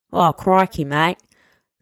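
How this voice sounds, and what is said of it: Put-on Australian accent. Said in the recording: “Any other Australian accent?”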